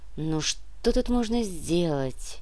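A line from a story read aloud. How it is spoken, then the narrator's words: Soft sigh. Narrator (Russian): Дита тихонько вздохнула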